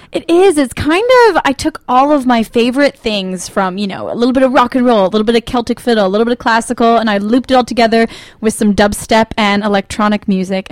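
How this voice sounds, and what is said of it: American accent. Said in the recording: “you're obviously from the States... I think we gathered that by your accent straight off”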